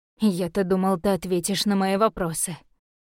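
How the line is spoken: Disappointed sigh. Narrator (Russian): разочарованно вздохнул Каллан

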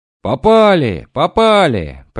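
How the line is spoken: Shouting from ship. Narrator (Russian): прокричали на корабле

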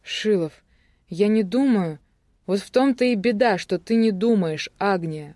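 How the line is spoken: Exclaiming. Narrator (Russian): воскликнул Шилов

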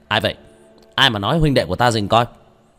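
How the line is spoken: Shout. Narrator (Vietnamese): Tôn Mãn Giang quát lên

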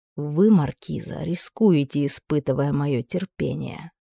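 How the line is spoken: Dangerously quiet man. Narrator (Russian): опасно тихо произнес мужчина

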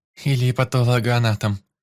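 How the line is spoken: Drunken giggle. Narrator (Russian): хихикнула девица, неожиданно продемонстрировав чудеса пьяной артикуляции

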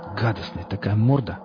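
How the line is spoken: Mumbled. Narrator (Russian): пробормотал он

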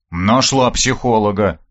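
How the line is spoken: Grumbling. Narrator (Russian): проворчал я

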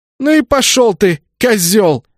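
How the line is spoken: Emphatic shout. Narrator (Russian): С чувством выкрикнула она

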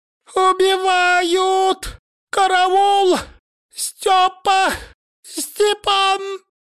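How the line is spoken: Shrill panicked squeal. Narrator (Russian): Пронзительно провизжала толстушка, бегая по парикмахерской

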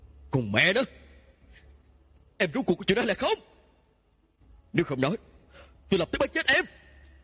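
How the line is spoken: Low growl, heaving chest. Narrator (Vietnamese): Tiêu Tân Nghiêm lồng ngực phập phồng, trầm tiếng gầm nhẹ

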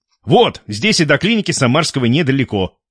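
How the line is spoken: Loud. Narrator (Russian): громко сказал капитан

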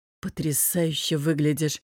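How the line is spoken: Low voice. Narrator (Russian): вполголоса сказал Софии

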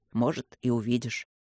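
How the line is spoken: Mumble. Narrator (Russian): пробормотал Люк

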